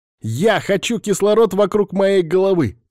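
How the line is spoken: Inner shout. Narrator (Russian): закричал сам в своей голове

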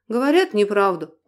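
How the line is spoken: Tired voice. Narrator (Russian): устало произнес Дронго

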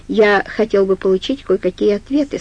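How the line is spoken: Plain. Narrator (Russian): сказал Сью

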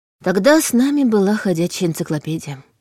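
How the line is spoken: Sigh. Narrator (Russian): вздохнула

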